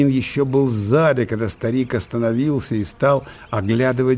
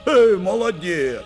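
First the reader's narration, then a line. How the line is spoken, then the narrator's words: Old man's laughing shout. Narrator (Russian): смеясь прокричал старик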